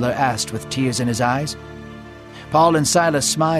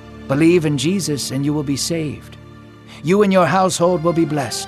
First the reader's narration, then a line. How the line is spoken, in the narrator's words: they answered